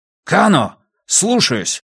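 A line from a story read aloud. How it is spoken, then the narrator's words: Muffled bark from behind mask. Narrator (Russian): рявкнул друг Брус из-под маски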